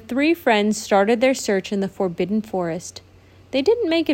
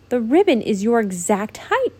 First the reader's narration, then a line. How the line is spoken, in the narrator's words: Brietta exclaimed